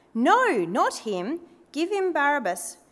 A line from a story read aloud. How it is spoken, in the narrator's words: They shouted back